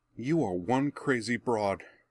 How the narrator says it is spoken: Benny gasped after a moment's fearful silence

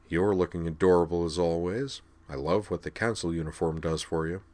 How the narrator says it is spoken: He murmured

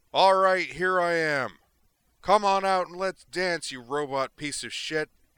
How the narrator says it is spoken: he inflated his lungs and bellowed

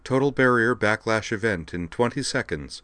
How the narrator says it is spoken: the ship's machine intelligence, Eve, announced calmly

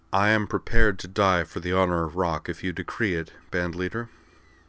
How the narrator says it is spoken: Amanda gave a little sigh, said with affected glumness

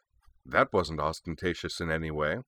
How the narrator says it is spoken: she observed dryly

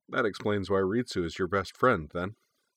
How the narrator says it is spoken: he said

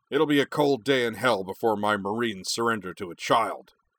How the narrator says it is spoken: he barked

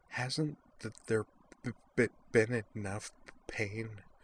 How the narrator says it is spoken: She asked in a desperate whisper

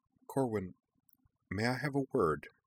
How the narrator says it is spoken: Jinora asked quietly

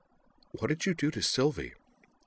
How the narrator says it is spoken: Utina murmured to Miki

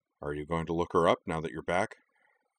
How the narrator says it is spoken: sighed

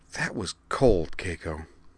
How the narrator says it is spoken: Wakaba murmured

